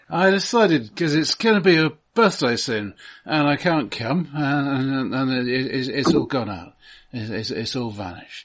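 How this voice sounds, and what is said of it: Drunk, slurred voice. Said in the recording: “do a good intoxicated voice”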